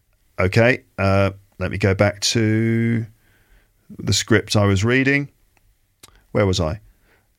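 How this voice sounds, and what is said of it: British RP English accent. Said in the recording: “the phonemic chart for British RP English, which is basically the accent I have ... I speak like this, so this is the accent I have”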